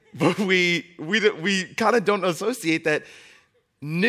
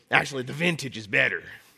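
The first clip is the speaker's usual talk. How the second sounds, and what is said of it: Put-on old person accent. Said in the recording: “I don't know where that accent came from, but apparently that's my old person accent.”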